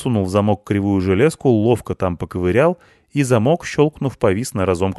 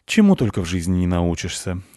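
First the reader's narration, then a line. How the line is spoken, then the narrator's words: Sighing. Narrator (Russian): вздохнул он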